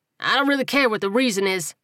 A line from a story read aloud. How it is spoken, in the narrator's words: Buddy barked